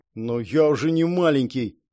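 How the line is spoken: Embarrassed grumble. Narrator (Russian): пробурчал Элмерик краснея

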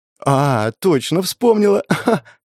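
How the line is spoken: Giggling. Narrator (Russian): Она хихикнула

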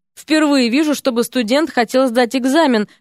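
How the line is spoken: Amused snort. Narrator (Russian): хмыкнул толстячок

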